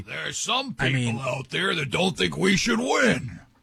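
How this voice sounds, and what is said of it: Impression of the Major League manager. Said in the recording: “my impression of the manager ... really good, dude”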